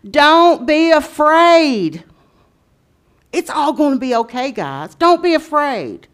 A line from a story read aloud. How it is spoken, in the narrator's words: he yelled to them